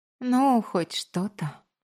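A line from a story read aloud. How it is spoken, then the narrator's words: Ironic. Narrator (Russian): сиронизировала она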